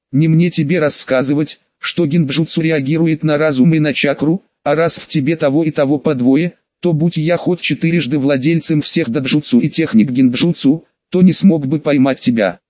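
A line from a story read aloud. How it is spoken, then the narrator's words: Plain. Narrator (Russian): ответил Пейн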